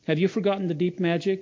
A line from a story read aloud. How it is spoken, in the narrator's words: asked the witch